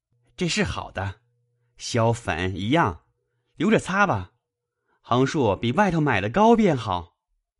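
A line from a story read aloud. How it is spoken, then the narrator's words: Laughing speech. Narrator (Chinese): 贾环因笑道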